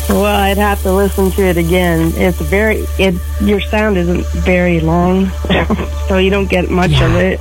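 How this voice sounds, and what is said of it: Congested voice with a cold. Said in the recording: “I have a cold, sorry. ... I have a cold.”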